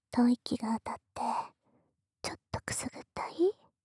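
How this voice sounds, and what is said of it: Soft whispering voice. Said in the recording (Japanese): “可愛い妹のささやき声なんだから”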